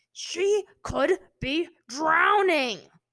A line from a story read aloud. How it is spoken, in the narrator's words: Zuko roared